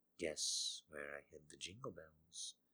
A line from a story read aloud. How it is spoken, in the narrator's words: she murmured